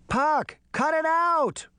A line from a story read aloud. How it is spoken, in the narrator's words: She shouted